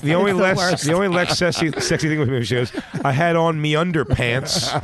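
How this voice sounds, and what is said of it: Mock Australian accent. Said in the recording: “The fucking accent is the only worst... There's nothing worse than the Australian accent.”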